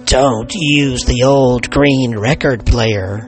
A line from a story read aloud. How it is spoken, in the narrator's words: the old woman hissed